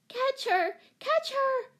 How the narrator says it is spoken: shrieked Betsy

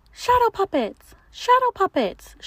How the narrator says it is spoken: she squeaked again

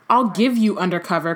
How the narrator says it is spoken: cried Mrs

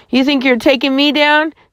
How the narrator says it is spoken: he shouted

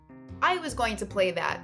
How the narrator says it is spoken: said Noodle Fool angrily

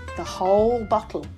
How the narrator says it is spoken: said Hamish gloomily

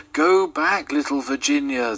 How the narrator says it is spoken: they cried

